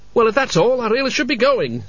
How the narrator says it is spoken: said Cutwell loudly

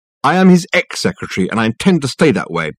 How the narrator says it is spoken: she said, firmly

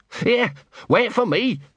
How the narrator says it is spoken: barked Gaspode

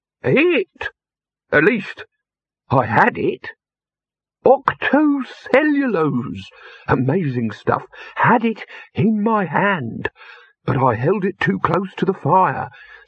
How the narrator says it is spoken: said the figure in the perplexed tones of the nearly concussed

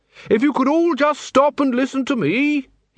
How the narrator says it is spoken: bellowed

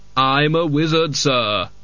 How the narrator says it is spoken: Death sneered

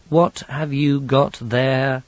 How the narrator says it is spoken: said Susan wearily

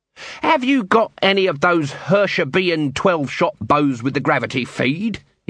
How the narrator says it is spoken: snapped

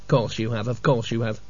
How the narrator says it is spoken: mumbled Cutwell

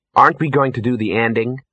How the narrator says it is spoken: said Ginger

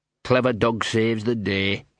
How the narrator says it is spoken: he muttered

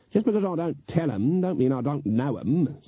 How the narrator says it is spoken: said Granny haughtily

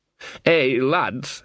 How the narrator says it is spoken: he slurred

